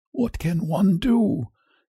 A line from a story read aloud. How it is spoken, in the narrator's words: he murmured